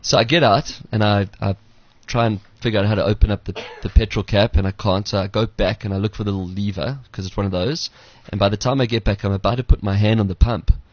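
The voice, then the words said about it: South African accent. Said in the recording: “I've got a South African accent”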